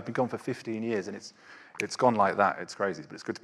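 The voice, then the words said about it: British accent. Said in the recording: “you, are obviously a Brit”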